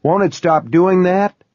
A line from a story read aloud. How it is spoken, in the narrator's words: someone asked, almost cried